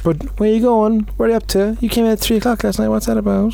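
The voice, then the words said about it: Put-on Cork Irish accent. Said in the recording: “I have a Cork accent for some reason.”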